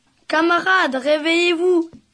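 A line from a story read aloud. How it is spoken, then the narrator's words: Screamed. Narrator (French): hurla-t-il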